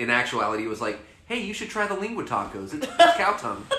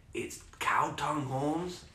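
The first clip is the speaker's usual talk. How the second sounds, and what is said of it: Put-on Hispanic accent. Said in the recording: “He was Mexican ... Hispanic, Latino, or Latinx. But he didn't have an accent. But I'm going to do one for podcast sake.”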